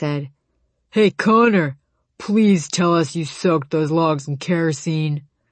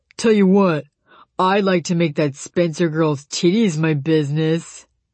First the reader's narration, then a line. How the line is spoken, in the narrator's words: Mike said with a laugh